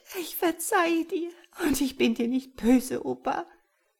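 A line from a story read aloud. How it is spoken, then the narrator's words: Sobbing. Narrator (German): Sie schluchzend sagte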